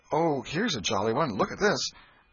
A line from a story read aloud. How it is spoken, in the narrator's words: poor Alfred, seeing that he was losing her, he did not know how, kept exclaiming